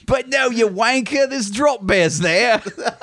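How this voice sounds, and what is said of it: Exaggerated put-on Australian accent. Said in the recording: “That was my very offensive Australian accent. ... So I'm just doing Paul Hogan from Crocodile Dundee.”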